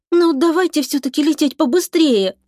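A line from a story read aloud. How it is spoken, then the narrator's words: Pleading embarrassed whisper. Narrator (Russian): умоляющим голосом прошептала Оксана, смущенно улыбаясь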